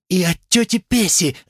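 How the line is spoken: Shouting woman. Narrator (Russian): закричала женщина

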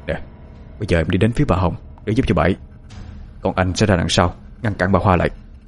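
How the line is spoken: Low murmur. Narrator (Vietnamese): Anh lẩm bẩm trong miệng, nói nhỏ với cô

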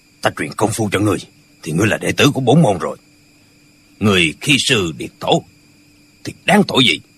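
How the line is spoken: Shouting. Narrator (Vietnamese): Chàng liền quát lên

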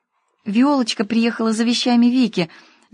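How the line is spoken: Babbling. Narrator (Russian): залепетала Ксюша

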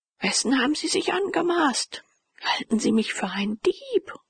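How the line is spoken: Thundering lion-like voice. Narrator (German): rief Frock mit erschütternder, löwenhafter Stimme

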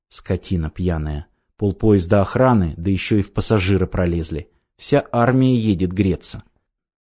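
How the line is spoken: Quiet wife's remark. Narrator (Russian): Жена тихо сказала вслед

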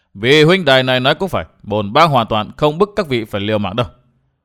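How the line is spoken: Loud laugh, then speaking. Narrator (Vietnamese): Mặc Nho cười lớn rồi nói

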